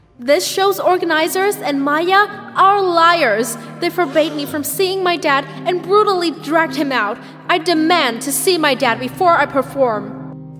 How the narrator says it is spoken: I said loudly in front of everyone

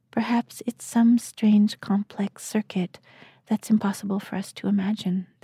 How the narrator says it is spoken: the man murmured

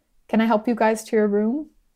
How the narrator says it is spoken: Sam kept his voice gentle but firm

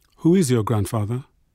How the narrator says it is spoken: Fisher asked

